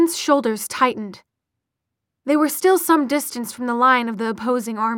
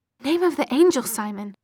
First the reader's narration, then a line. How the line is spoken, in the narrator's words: said Izzy